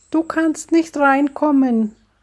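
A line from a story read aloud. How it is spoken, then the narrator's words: Shouting. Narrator (German): schreit Susi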